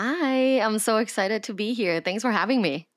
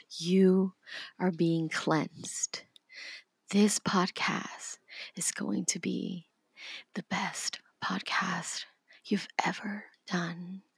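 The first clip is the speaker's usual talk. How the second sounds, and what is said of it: Soft, calming ASMR-style voice. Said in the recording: “ASMR voice ... Oh, it's so calming.”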